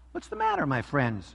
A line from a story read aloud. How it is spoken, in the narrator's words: asked kindly